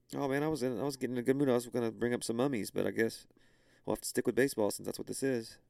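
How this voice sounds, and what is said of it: Hoarse, fading voice. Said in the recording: “I'm losing my voice now.”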